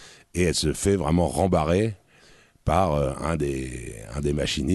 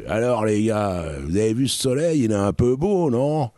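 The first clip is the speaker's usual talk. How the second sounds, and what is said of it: Imitated working-class French accent. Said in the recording (French): “elle fait vraiment avec son accent du peuple”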